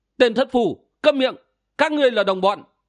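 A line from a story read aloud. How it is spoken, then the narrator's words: Loud shout. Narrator (Vietnamese): Hạ Hầu Lam quát lớn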